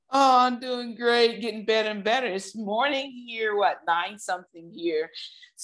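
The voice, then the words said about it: Excited, upbeat voice. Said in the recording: “I'm excited, as you can tell in my voice”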